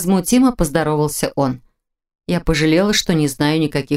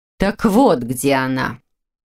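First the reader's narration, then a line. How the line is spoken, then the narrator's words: Cold, through gritted teeth. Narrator (Russian): Холодно процедила та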